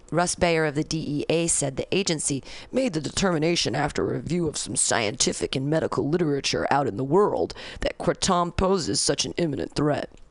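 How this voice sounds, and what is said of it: Silly mocking voice. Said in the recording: “I used a silly voice because this guy's an idiot”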